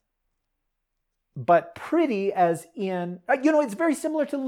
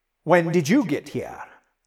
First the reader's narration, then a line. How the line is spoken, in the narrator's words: Cherie growled